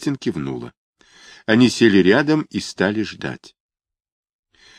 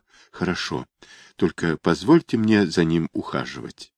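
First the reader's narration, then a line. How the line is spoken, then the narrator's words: Quiet promise. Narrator (Russian): Она подавила эти чувства и тихонько пообещала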